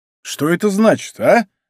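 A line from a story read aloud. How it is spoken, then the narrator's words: Exclamation. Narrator (Russian): воскликнул герцог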